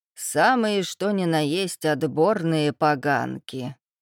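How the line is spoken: Snide remark. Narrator (Russian): и добавила ехидно

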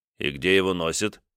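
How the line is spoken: Stern question. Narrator (Russian): спросил я строго Семена

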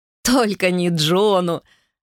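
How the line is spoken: Laughing. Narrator (Russian): рассмеялся Гарольд

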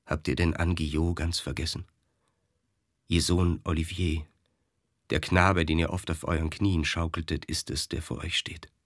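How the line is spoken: Dull, hollow voice. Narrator (German): sprach er mit dumpfer Stimme

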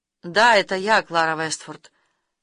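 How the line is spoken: Completely calm. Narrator (Russian): сказал он совершенно спокойно

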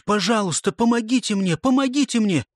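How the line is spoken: Pleading exclamation. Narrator (Russian): Я хочу воскликнуть

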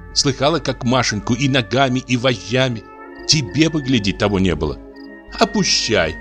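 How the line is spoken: Laughing whisper. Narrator (Russian): Варвара засмеялась в платок и сказала шепотом

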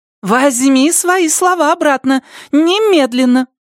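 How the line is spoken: Exclamation. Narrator (Russian): воскликнула Андреа

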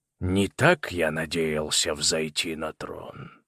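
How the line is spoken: Muttered. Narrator (Russian): пробормотал Орион

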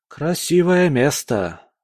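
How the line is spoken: Sighing. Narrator (Russian): вздохнул он

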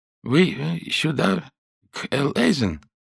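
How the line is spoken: Thin cracked voice, asking. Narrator (Russian): спросил тонким, надтреснутым голосом

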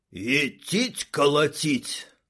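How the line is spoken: Loud whisper. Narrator (Russian): прошептал громко Винт

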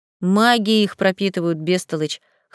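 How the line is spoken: Scoffing. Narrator (Russian): хмыкнул Адриан

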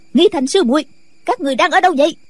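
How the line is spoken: Shouting. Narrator (Vietnamese): Nghi Hòa lại quát

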